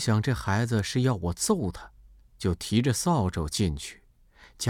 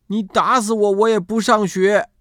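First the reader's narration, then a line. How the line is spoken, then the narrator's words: Shouting. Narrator (Chinese): 喊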